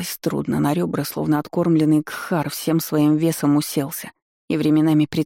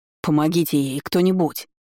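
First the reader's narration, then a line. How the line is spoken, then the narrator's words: Sharp shout. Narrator (Russian): прикрикнул Вейн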